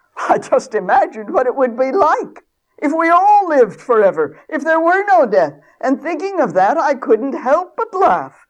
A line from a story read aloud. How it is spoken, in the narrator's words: the laughing lord blurted out